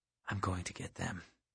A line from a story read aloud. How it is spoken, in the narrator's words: I whispered